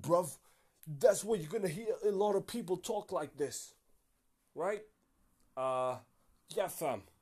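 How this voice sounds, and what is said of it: Put-on London accent. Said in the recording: “That's basically the London accent. It's quite aggressive.”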